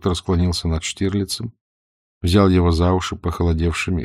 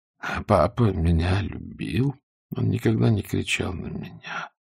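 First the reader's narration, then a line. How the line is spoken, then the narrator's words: Sleepy reply. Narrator (Russian): сонно ответил Штирлиц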